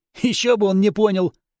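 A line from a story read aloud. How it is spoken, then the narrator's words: Smirking grunt. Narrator (Russian): хмыкнул Вырви глаз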